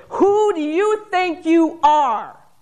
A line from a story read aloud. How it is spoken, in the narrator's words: A final surge of fury shook her, and she roared